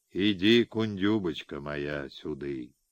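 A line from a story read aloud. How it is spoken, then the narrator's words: Tender, soft. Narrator (Russian): ласково, ласково, как тихие гусли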